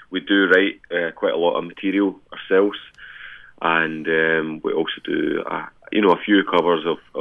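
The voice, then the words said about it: Scottish accent. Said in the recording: “a good Scottish accent”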